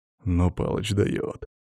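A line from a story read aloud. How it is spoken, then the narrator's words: Quiet. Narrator (Russian): тихо проговорил Иван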